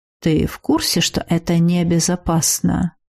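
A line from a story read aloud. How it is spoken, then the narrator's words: Insinuating, insistent question. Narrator (Russian): Вкрадчиво, но настойчиво поинтересовался Сакс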